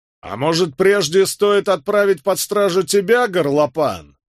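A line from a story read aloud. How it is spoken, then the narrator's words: Angry roar. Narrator (Russian): взревел Роберт Кэт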